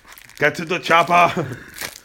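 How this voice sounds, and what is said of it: Arnold Schwarzenegger impression. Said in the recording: “Indian, Irish, or Schwarzenegger.”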